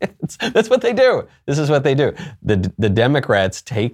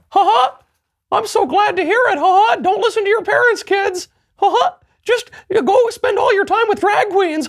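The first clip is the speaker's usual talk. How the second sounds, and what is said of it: Weird demonic cartoon mouse voice. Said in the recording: “Weird Demon Mickey is my favorite impersonation”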